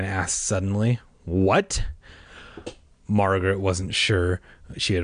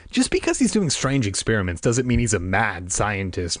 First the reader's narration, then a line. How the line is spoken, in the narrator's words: Margaret said sharply